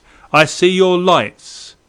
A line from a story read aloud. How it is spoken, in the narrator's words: Through the dense din, we heard him shout